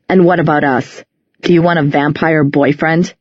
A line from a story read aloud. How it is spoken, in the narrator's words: He laughed bitterly